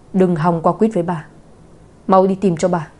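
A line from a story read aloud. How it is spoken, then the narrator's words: Stern, hurried. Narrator (Vietnamese): Lão phu nhân cảm thấy mình có hiện tượng bị qua quýt, vội nghiêm giọng nói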